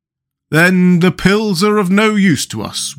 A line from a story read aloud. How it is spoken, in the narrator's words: wailed the Pumpkinhead